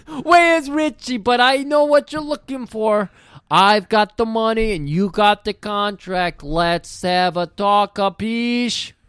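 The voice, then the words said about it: Exaggerated Italian mobster accent. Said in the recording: “Do your fucking racist Italian thing.”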